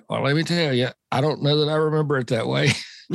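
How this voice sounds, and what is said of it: Impression of Bobby Allison. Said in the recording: “my Bobby Allison impression”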